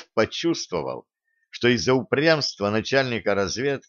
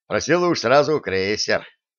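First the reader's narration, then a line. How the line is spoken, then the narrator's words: Snorting, wry. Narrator (Russian): хмыкнул начальник разведки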